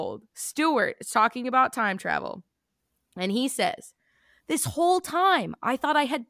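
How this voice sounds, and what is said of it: Usual voice. Nothing is said of it.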